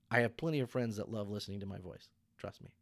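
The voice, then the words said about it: Mousy, odd-sounding voice. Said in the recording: “my voice is mousy and weird”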